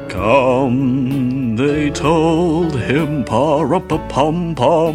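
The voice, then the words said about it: Low crooning singing with vibrato. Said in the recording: “you do a Bing Crosby voice ... Low singing, lots of vibrato”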